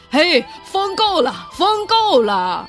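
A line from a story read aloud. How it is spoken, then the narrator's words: Frightened shout. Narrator (Chinese): 皇帝心里害怕，大声的喊道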